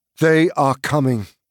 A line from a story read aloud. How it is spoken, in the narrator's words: cried Legolas